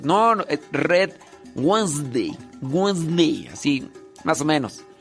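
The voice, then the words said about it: Strong pocho-style accent on English words. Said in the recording (Spanish): “tienes mucho acento, parece, parece un pochillo”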